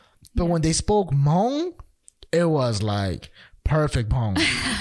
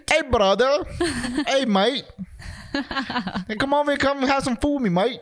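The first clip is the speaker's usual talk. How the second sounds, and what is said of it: Put-on Australian accent. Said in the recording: “Australian Hmong accent. ... some sort of like Australian accent of it.”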